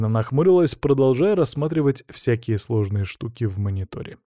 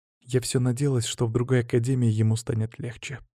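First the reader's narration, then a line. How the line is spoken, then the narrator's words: Quiet. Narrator (Russian): поделилась она тихо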